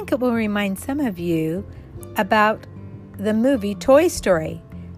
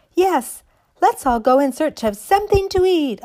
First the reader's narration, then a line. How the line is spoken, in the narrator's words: all the other dollies cried